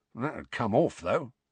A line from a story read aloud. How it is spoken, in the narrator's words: muttered Mundungus